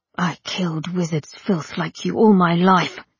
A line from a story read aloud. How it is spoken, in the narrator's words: snarled the sleeper